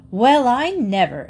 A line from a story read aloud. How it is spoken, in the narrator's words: exclaimed the wife of the druggist